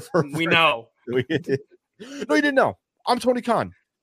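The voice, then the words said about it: Imitates another person's voice. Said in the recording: “my Tony Khan impression ... That was good. I think that was pretty good too.”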